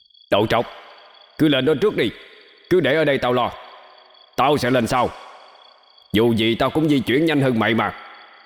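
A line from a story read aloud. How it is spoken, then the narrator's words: Shout. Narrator (Vietnamese): Hắc xà hét lên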